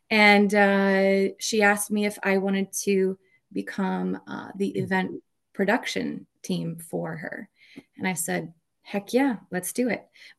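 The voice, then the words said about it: Slight Minnesota accent. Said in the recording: “the state of Minnesota. That's where I'm from. You might ... a little bit.”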